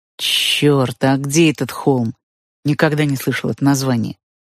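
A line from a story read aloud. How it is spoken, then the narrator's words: Muttered, fat man. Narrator (Russian): пробурчал толстяк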